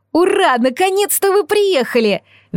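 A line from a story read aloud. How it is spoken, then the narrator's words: Witch shrieking. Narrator (Russian): визжала ведьма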